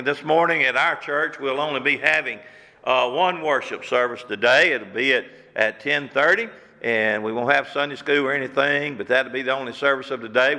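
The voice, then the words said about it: Slightly hoarse voice. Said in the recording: “I'm a little hoarse this morning”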